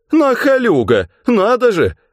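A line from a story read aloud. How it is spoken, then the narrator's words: Woman laughing. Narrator (Russian): женщина даже посмеялась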